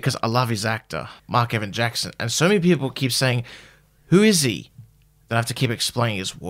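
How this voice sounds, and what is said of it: Usual voice. Nothing is said of it.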